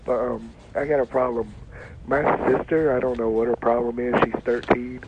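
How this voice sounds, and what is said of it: Sick, congested-sounding voice. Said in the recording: “I got a cold, so I sound terrible.”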